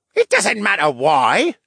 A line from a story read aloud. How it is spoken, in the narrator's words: the guard snapped